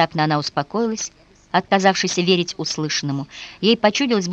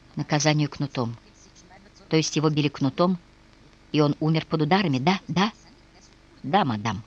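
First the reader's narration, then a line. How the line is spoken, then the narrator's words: Trembling halting whisper. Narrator (Russian): Она вся дрожала и долго не могла выговорить, но, наконец, прошептала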